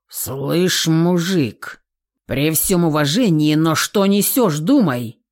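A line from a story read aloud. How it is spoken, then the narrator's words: Growl. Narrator (Russian): Зарычал я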